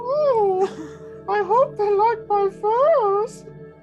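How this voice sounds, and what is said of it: Comic Monty Python-style woman's voice. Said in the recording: “Why am I getting Monty Python flashbacks? ... please do that voice. The Monty Python voice kills me. ... No woman sounds like that.”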